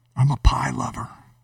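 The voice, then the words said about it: Whispering. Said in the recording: “why I'm whispering about pie”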